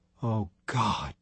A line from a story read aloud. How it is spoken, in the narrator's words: whispered